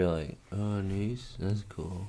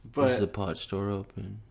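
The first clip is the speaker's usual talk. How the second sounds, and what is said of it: Sedated, heavily medicated-sounding voice. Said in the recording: “my impression of Brendo on 5 different antipsychotic meds”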